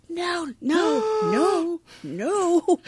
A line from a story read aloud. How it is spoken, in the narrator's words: The other servers gasp